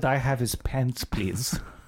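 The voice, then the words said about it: Creepy put-on accent. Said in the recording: “you do that a little bit too convincingly ... I don't know what accent it was ... It's a little bit creepy”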